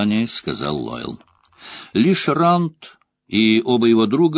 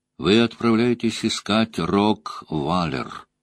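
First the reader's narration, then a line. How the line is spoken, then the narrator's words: Plain. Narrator (Russian): сказала она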